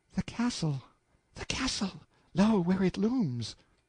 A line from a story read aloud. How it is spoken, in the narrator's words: said in a panting whisper